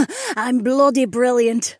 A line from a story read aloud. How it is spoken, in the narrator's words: she cackled